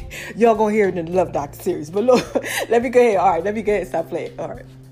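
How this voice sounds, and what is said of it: Usual voice. Nothing is said of it.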